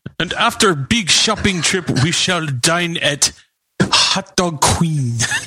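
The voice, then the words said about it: Put-on foreign accent. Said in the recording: “I thought that was the accent you were doing. ... All the accents are coming back tonight.”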